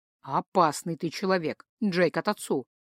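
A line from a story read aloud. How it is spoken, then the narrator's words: Respectful snort. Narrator (Russian): уважительно хмыкнул Дариан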